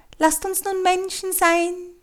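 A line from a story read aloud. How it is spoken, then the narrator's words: Parrot's call. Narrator (German): der Papagei ... rief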